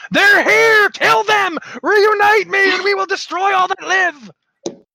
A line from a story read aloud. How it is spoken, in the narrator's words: the mouth, which immediately shrieks